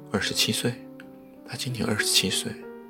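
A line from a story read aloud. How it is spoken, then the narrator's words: Quiet. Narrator (Chinese): 有人小声地说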